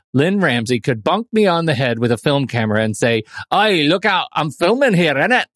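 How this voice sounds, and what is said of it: Deliberately bad put-on accent. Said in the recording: “I shall do a bad accent ... In the accent”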